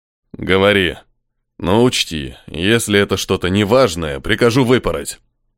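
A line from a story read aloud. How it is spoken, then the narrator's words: Growling. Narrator (Russian): прорычал Карн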